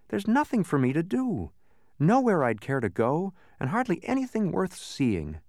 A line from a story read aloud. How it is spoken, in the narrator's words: he continued sadly